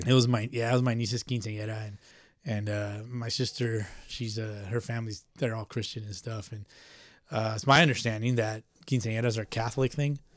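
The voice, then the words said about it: Thick, slightly raspy voice. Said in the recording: “You know what's thick, though, is my voice, man. I'm a little a little raspy.”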